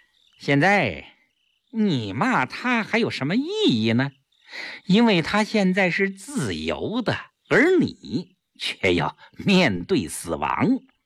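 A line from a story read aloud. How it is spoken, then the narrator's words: Smug laugh. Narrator (Chinese): 顾青自负地笑笑，对萧啸天说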